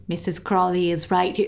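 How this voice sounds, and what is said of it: Put-on Australian accent. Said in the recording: “in an Australian accent.”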